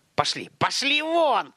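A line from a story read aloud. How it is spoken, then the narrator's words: Sharp shout. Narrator (Russian): прикрикнул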